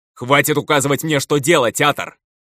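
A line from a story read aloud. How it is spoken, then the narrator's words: Barking retort. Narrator (Russian): Рявкнул в ответ я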